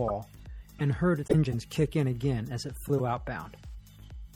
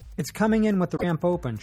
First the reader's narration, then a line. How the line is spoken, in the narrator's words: she shouted over the voice